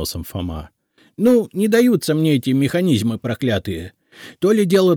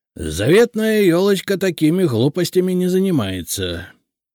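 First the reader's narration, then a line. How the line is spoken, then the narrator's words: Displeased grumble. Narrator (Russian): недовольно проворчал Игнат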